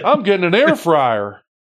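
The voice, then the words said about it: Country accent. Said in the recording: “My country accent came out on that.”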